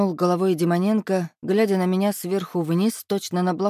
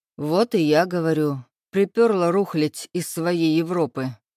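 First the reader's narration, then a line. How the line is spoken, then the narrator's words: Brash chuckle. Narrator (Russian): хохотнул наглец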